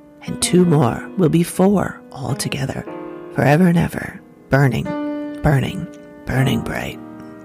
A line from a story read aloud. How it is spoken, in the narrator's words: said, his voice lowering strangely